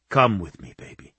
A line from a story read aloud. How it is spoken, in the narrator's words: he whispered